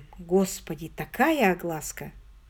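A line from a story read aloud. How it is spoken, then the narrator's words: Sighing, sterner. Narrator (Russian): Коронер вздохнул, стал суровей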